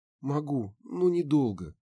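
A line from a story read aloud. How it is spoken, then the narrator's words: Wincing young woman. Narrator (Russian): поморщилась девушка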